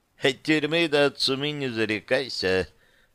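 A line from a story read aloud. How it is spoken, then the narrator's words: Snide, from the back. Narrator (Russian): послышалось ехидно с заднего ряда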